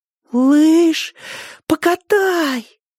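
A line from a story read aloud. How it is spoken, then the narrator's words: Breathless, two voices. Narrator (Russian): выдохнули Толя Поля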